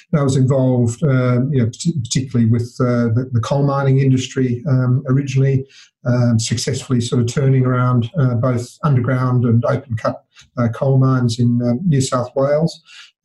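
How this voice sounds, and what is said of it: Australian accent. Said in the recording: “as you can probably guess from my accent, in Australia”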